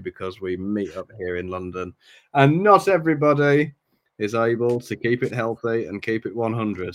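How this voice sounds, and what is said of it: Sick, congested voice. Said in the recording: “you may be able to hear it in my voice. I'm suffering from a lingering case of the ice flu, the XL cold”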